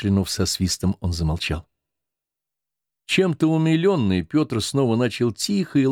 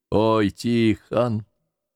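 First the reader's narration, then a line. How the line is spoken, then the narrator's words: Howling cry, pained grunt. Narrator (Russian): воющим голосом вскричал Никита и болезненно крякнул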